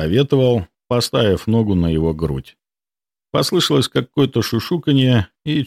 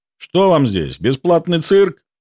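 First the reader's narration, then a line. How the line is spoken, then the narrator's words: Bark. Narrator (Russian): рявкнул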